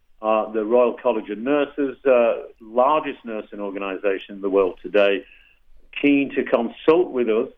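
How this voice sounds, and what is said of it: Noticeable non-American accent. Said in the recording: “as you can tell by my accent”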